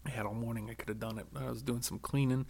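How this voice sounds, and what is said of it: Hoarse, nearly lost voice. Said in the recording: “as you can tell, my voice is almost gone.”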